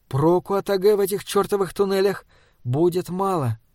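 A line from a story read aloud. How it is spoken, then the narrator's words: Muttered. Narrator (Russian): пробормотала Йелсон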